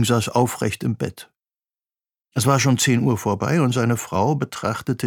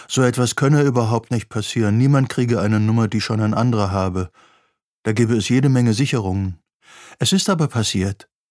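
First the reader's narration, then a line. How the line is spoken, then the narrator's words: Bored woman. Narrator (German): sagte eine Frau mit gelangweilter Stimme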